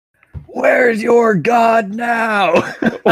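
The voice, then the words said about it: Deep booming yell. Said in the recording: “Big deep voice.”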